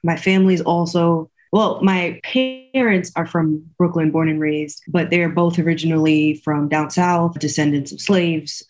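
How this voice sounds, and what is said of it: Slight Southern US accent. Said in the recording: “it sounds like you adopted their Southern accent a little bit ... I thought you would say that you're actually from the South.”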